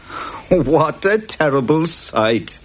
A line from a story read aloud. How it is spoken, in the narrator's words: laughed Jude